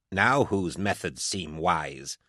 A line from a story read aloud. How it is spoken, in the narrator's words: Commodus Voke asked, with a sneer